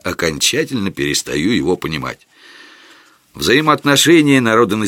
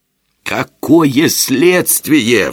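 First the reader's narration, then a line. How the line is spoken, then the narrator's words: Howled. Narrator (Russian): взвыл я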